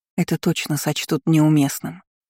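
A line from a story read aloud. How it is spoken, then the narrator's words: Whispered into ear. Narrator (Russian): прошептала ему в ухо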